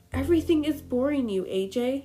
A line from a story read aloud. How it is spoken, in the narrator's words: said sadly